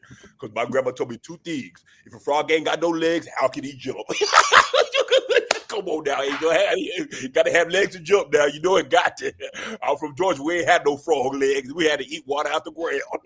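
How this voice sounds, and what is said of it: Shannon Sharpe impression. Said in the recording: “He's one Mountain Dew from sounding like a Tasmanian devil... That's Shannon Sharp impersonation.”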